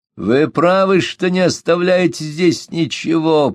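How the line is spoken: Nasal voice. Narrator (Russian): прогнусавил господин де ла Тремоэль

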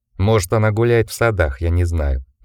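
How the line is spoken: Gloomy man. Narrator (Russian): мрачно ответил мужчина

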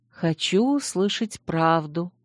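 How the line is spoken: Whispered reply. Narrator (Russian): также шепотом ответила я

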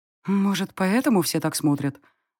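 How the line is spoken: Thoughtful mutter to self. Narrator (Russian): задумчиво пробормотала я себе под нос

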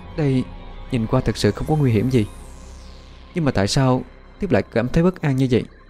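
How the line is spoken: Cautious, soft voice. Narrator (Vietnamese): Bích Nguyệt hơi thận trọng, khẽ nói

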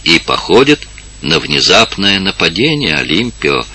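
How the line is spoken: Quiet. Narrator (Russian): сказала тихо Инесса

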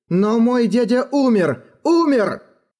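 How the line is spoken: Exclaiming. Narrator (Russian): воскликнул Эрагон

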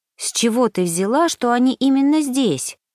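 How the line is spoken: Anxious question. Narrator (Russian): спросила Саша, то и дело взволнованно оглядываясь на дверь

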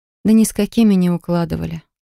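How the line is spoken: Sleepy dismissal. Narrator (Russian): сонно отмахиваюсь я

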